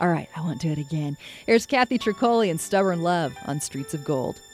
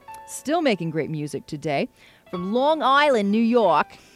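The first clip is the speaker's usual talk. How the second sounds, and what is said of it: Deliberately bad Long Island accent. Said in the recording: “terrible Long Island impersonation”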